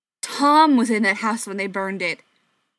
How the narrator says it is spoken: he snapped

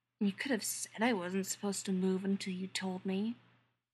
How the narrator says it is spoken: Charles mutters

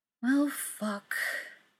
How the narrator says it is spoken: Frank says with a sigh

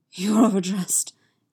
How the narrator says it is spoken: gasps

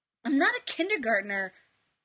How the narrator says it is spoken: Sam snapped at him

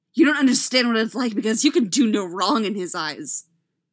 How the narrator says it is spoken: he snarled

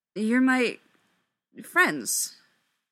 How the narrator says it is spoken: Styles says, faltering a little

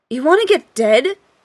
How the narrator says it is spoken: Dean yelled

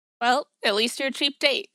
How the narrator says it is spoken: he says

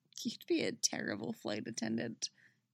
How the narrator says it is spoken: she says quietly

